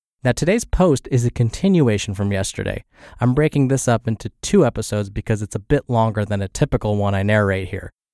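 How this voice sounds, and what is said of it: Congested, scratchy voice. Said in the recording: “I'm recovering from the flu. So if I sound a little congested and my voice sounds scratchy or if it cuts out”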